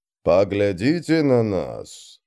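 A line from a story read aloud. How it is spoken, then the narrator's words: Grumbling. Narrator (Russian): снова проворчал быстрый Бен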